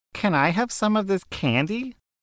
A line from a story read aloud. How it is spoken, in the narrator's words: The nice kid asks very sweetly